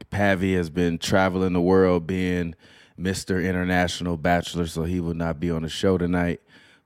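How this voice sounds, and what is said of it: Hoarse, sick-sounding voice. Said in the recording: “as you can hear from my voice. I have no voice. I am sick.”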